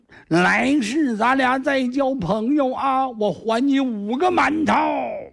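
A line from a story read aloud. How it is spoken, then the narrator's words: Loud shout. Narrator (Chinese): 这老孔孔庙长大喊一声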